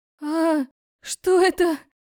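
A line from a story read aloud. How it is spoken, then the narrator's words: Sudden yell. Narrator (Russian): завопила вдруг Лика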